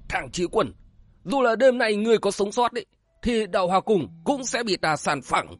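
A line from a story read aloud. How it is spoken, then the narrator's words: Furious roar. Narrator (Vietnamese): Chân Nhân giận dữ gầm vàng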